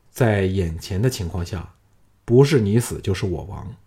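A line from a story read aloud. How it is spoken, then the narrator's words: Deep grave voice. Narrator (Chinese): 项少龙想起吕娘荣，心中暗叹一口气，沉声说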